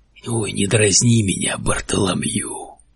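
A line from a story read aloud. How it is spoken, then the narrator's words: Hoarse reply. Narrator (Russian): хрипло ответил он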